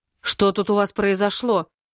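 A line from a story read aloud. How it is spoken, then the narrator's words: Stern question. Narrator (Russian): строго спрашивает брат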